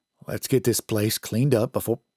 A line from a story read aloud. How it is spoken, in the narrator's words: Sheriff Wheatley said calmly